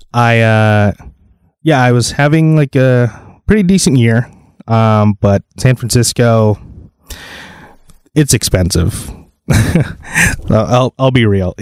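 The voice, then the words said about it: Flat, monotone speaking voice. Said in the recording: “sorry if I sound a little monotone”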